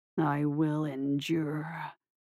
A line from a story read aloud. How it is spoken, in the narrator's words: growled